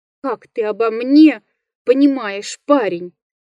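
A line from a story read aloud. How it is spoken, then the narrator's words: Moaning. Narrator (Russian): Простонал лесник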